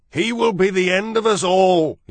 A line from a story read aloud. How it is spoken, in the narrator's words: he shouted